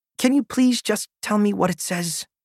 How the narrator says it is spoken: I begged

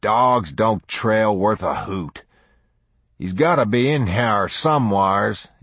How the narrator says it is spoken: he muttered

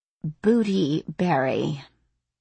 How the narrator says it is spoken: she read slowly, enunciating each word

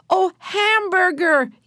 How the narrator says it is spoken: yelled Benny

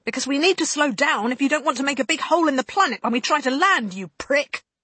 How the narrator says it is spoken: the pilot yelled back

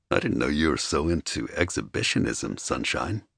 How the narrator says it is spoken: he murmured

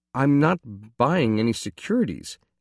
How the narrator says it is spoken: I explained timidly

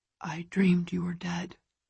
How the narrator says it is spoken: he whispers

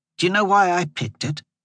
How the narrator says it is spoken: She sighed

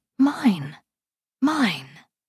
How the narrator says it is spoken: whimpering

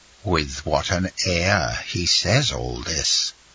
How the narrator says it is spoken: muttered Beauchamp

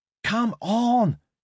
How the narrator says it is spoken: shouted Ricky Zhang

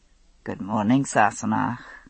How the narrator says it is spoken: he said, speaking quietly so as not to disturb the small sleeper

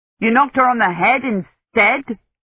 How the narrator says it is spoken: Dunworthy said angrily

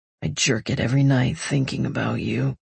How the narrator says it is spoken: he rasps

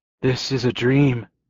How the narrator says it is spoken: whispered

